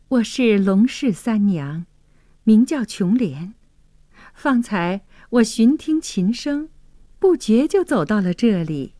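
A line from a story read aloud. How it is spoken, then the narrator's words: Shy, smiling. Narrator (Chinese): 琼莲羞涩的一笑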